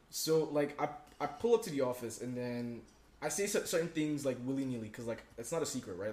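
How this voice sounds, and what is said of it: Nigerian English accent. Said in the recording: “my accent doesn't give it away, which is weird, because, like, I sound very Nigerian”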